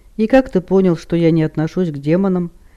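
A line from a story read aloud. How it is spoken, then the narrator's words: Mocking snort. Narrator (Russian): Тахор хмыкнул в насмешливой усмешке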